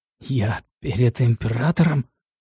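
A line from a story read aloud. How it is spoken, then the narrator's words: Horrified, breathless wheeze. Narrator (Russian): ужаснувшись, просипел едва дышавший адмирал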